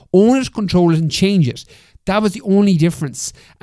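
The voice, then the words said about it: Animated, fired-up emphatic delivery. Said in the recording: “the reason I get animated and the reason my voice gets more fired up when I say this”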